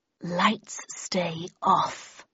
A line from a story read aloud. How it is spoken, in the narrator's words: growled a husky woman's voice